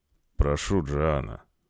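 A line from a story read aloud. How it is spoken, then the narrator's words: Low tone. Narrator (Russian): произнес он низким тоном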